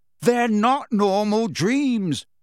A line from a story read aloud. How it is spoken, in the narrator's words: Harry shouted in her face